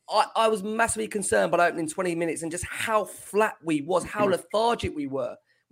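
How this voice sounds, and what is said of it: Voice worn from roaring. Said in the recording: “you can hear from my voice ... we were trying to roar”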